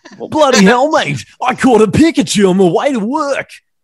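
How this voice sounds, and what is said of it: Thick put-on Australian accent. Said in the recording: “they really had that thick Aussie accent, didn't they?”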